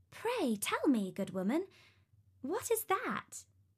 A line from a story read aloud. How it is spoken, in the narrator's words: asked Talia